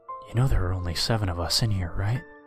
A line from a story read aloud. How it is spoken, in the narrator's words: He whispers in my ear